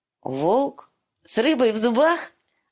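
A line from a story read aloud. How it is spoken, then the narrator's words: Bursting laughter. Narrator (Russian): Она расхохоталась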